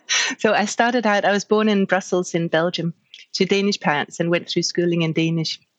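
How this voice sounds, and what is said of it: Mixed international accent. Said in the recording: “as you can hear, my accent is a bit of a mix of everything”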